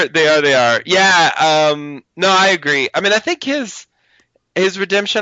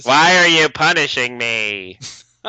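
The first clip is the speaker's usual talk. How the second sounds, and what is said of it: Michael Emerson impression, David Lynch-like. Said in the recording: “my Michael Emerson impression, but yeah, it did kind of sound like David Lynch”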